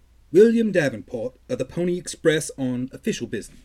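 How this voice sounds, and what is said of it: Put-on British accent. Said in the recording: “why did he turn British?”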